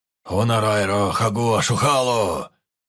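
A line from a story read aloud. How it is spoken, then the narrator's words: Booming powerful voice. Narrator (Russian): прогремел мощный голос Карна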